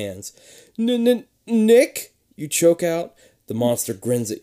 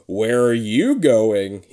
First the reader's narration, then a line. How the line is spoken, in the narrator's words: He growls